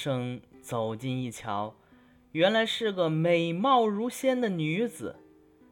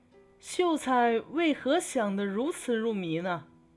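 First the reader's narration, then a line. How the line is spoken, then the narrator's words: Woman speaking with a laugh. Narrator (Chinese): 有一个女子从墙头翻过来，笑着说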